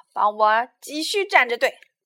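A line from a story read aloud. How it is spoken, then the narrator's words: Shouting. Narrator (Chinese): 他对杰克喊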